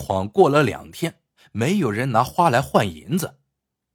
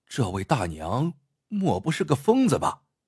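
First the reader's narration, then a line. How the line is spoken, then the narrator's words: Low muttering. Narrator (Chinese): 压低声音嘀咕道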